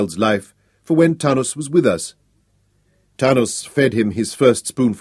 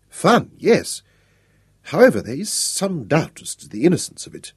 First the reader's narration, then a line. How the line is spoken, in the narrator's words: muttered